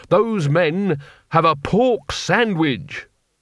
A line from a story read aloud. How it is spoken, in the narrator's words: said desperately